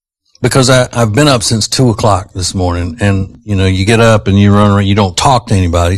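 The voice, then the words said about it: Hoarse, fading voice. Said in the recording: “Does this sound like I'm losing my voice? ... Yes.”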